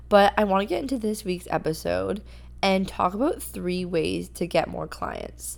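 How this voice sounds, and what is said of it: Strained, worn-out voice. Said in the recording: “So my voice is a little, I don't even know what to call it. I need a new vocal cord.”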